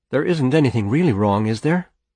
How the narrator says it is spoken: Elsa said, and her voice wavered uncertainly on the edge of fear

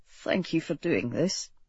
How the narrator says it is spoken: he murmured

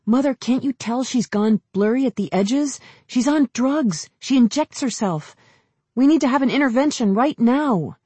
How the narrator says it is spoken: Jolie nearly blurted out

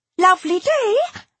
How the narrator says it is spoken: she said cheerfully

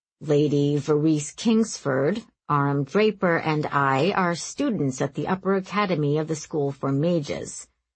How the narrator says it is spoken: Ozorn told Stillowit smoothly

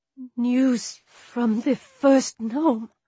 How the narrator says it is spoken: she said shakily

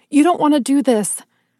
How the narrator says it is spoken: I cried

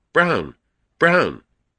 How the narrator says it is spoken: Someone called out sharply behind me

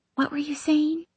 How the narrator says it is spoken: Mara whispers

